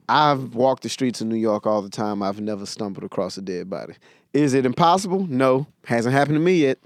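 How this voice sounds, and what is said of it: Texan twang. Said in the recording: “Houston, Texas. ... That's where the twang comes from.”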